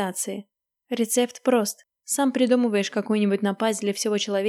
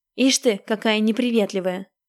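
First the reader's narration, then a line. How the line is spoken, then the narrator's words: Angry shout. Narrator (Russian): обозленно выкрикнул Маскин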